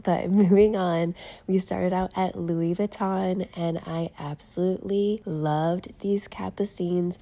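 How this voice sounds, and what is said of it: Sick-sounding, slightly rough voice. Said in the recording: “I'm getting over a cold, so please excuse my voice.”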